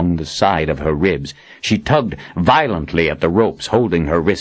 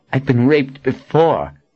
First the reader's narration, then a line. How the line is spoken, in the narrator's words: she sneered